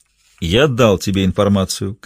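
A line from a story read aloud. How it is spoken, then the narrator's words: Categorical tone. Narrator (Russian): категорическим тоном заявил Лагранж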